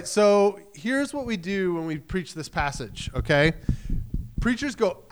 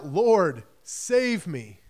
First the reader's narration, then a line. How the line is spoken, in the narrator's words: he cried out